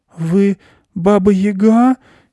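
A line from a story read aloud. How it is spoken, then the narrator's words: Frightened question. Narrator (Russian): испуганно спросила Аня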